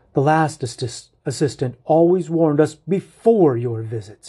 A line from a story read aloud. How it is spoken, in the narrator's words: snaps